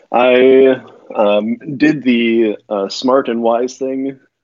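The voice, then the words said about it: Sarcastic delivery. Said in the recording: “I hope you can hear the sarcasm in my voice there”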